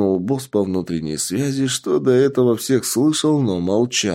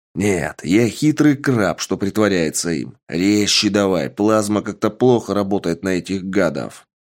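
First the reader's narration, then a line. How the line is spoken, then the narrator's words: Growled. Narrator (Russian): Рыкнул Сергей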